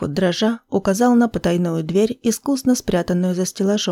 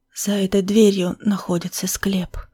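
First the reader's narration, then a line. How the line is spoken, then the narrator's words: Whisper. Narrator (Russian): прошептал он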